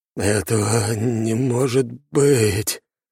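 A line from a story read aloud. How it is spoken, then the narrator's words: Trembling voice. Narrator (Russian): дрожащим голосом выдал Темус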